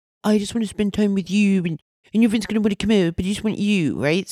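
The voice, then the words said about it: Put-on German French accent. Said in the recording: “picture this in a German French accent”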